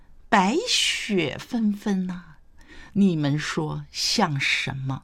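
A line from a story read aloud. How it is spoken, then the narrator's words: Smiling question. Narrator (Chinese): 谢安微笑问道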